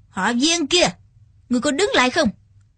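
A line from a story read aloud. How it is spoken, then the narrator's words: Shouting. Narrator (Vietnamese): Trác Tiên Hùng quát lên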